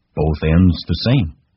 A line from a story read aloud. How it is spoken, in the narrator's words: he said